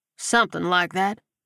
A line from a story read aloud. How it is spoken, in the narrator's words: Landry replied dryly